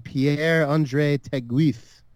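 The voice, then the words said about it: Put-on French accent. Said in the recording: “That's my best French accent.”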